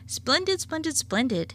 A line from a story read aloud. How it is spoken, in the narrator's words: exclaimed the weatherman